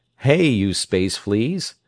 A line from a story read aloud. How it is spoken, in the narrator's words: he cried